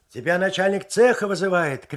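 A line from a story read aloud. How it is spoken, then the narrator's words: Shouted from a distance. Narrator (Russian): крикнул он еще издали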